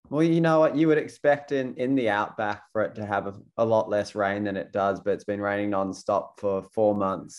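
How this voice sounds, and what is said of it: Australian accent. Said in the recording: “as you can tell by the accent, you're based out in Australia”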